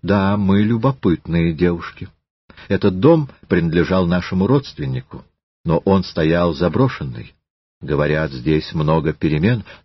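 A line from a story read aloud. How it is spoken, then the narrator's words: Calm. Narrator (Russian): Елизавета спокойно наклонила голову и сказала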